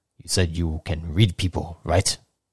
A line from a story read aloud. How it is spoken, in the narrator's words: Vagabond laughs under his breath, whispering